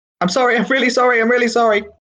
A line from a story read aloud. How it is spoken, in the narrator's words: shouting